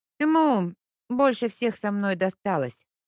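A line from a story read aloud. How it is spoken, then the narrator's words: Sighing. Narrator (Russian): справедливо вздохнула Леська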